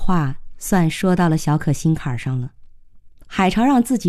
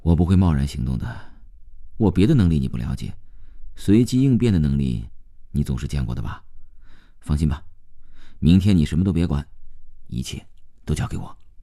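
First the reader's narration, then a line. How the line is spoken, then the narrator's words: Soft sigh. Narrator (Chinese): 海潮轻轻叹了一口气，接着又说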